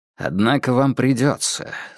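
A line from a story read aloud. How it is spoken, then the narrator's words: Calm reply. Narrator (Russian): спокойно ответил Холмс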